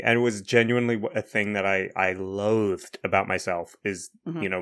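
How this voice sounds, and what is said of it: Pronounced New Zealand accent. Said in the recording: “your accent has gotten a little more pronounced ... Podcast, as pronounced in New Zealand ... my real New Zealand Joburg roots”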